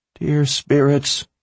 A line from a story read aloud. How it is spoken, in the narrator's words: she begged in her mind